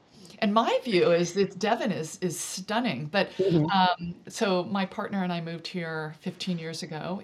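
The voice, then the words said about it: Californian American accent. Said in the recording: “they hear my accent, and they find out where I'm from, and I say California”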